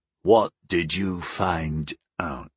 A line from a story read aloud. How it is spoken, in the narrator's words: He croaked